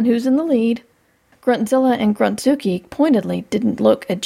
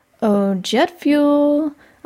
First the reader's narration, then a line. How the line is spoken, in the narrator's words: I said sweetly